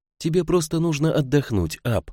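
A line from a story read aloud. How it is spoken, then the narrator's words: Tearful speech. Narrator (Russian): сказала она сквозь слезы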